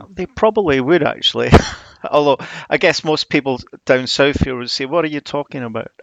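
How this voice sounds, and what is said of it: Slightly softened Scottish Edinburgh accent. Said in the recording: “I love an accent, and I'm a big fan of your accent ... I was brought up in Edinburgh ... It's probably softened my accent a little bit, but yeah, it's still going strong ... a soft southern accent”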